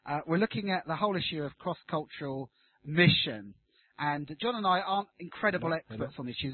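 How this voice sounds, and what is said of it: Southern English Brighton accent. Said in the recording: “Brighton, which is where my accent's from”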